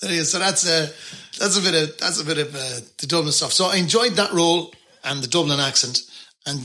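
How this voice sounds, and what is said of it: Usual voice. Nothing is said of it.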